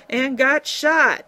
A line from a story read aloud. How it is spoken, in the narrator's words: Larrabee bellowed